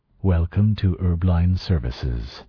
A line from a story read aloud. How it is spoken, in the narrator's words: the cab said smoothly